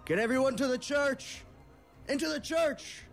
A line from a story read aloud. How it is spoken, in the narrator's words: Nazir, the town sheriff, who shouts out to his deputy and says